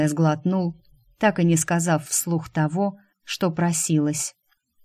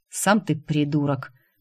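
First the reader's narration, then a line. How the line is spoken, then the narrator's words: Grumbling. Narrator (Russian): проворчал Дайм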